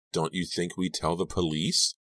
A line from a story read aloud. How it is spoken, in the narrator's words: Robbie sighed